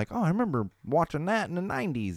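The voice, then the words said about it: Character voice, put-on Southern accent. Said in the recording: “my hipster got a Southern accent. If that's even a Southern accent”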